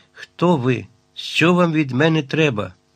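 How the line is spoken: Sharp strained question. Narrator (Ukrainian): зробивши над собою неймовірне зусилля, різко запитав

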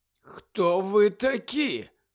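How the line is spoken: Croaked. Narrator (Ukrainian): прохрипів Колінс

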